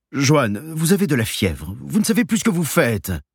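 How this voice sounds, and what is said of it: Calm, reassuring voice. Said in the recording (French): “avec une voix calme qui se veut rassurante”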